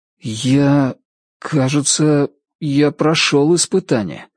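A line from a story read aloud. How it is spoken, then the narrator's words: Uncertain voice. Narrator (Russian): неуверенно проговорил Ричард Мэхью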